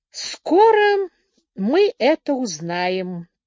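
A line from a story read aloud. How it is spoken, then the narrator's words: Pleasant voice. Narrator (Russian): приятным голосом произнес Слоун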